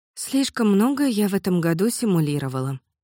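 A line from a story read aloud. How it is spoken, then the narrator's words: Sad. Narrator (Russian): добавила она грустно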